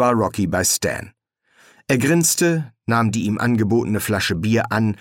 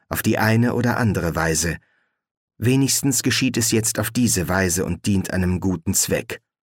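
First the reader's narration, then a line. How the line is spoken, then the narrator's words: Murmured. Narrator (German): murmelte Roberta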